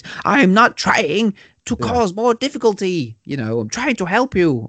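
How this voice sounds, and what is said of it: Poor imitation of a film character. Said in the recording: “terrible impression ... Oh, fucking Adolf Hitler, that one.”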